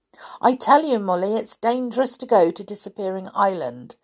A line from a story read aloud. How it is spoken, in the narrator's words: said Binky crossly